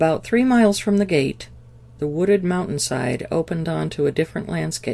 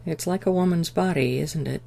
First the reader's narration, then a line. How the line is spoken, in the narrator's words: Daniel said quietly